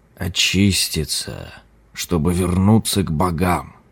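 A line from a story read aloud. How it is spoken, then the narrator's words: Murmur. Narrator (Russian): пробормотал лама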